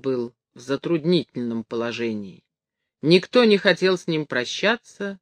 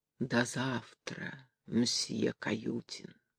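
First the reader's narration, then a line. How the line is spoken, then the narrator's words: Tender, expressive, smiling. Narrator (Russian): Лукерья Тарасьевна нежно улыбнулась Каютину и выразительно сказала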